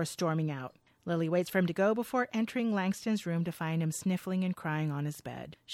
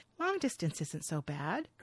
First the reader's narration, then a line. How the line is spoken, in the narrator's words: Lily gently says